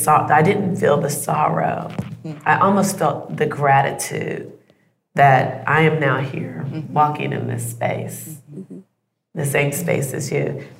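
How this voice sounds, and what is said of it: Emotional, moved voice. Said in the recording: “I'm getting a little emotional”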